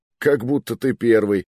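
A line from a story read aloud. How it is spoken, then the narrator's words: Laughing. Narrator (Russian): посмеялся я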